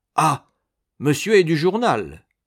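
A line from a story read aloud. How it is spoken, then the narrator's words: Surprised exclamation. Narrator (French): s'écria Giroudeau, surpris du geste de son neveu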